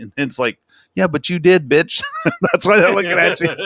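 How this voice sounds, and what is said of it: Usual voice. Nothing is said of it.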